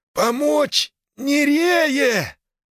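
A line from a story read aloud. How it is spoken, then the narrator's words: Exhausted hoarse wheeze. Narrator (Russian): хрипит Малдер из последних сил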